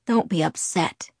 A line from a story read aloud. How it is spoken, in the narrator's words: he pleaded